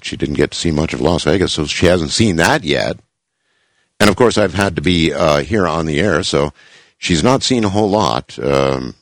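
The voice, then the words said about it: Congested voice with a cold. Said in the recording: “we both have a cold. You can probably hear the cold in my voice.”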